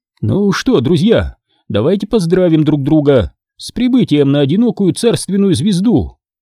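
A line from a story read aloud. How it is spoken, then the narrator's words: Joyful. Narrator (Russian): радостно произнес профессор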